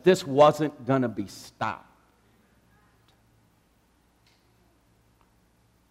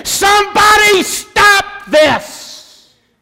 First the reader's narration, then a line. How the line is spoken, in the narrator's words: your mother is at the foot of the cross screaming